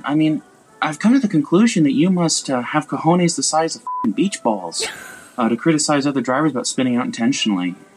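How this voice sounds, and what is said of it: Heavy, hard-to-understand accent. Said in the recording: “your accent sucks ... I couldn't hardly understand what he was saying because his accent's so bad.”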